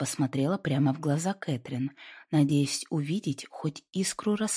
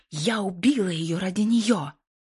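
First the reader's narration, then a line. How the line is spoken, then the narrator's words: Growl rising to frenzied scream. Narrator (Russian): зарычала Кэтрин, ее голос взлетел до безумного крика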